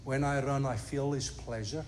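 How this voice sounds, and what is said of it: Put-on Scottish accent. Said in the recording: “forgive this very poor Scottish accent ... That's not too bad”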